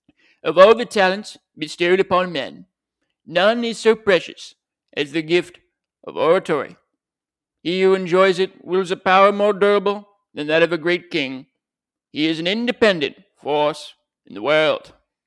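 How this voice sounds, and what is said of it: Imitates another person's voice. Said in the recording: “I'm going to do a little Churchill impression ... It's not bad. I'll work on it”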